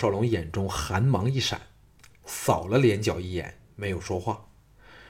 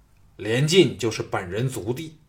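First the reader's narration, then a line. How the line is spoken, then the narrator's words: Cold, murderous. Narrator (Chinese): 连角的眼中掠过了森寒的杀意，冷冷的说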